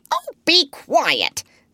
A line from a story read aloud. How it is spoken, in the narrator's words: snapped Polynesia crossly